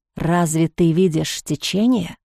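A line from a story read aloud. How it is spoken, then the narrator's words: Whispered question. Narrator (Russian): Отчего-то шепотом переспросил он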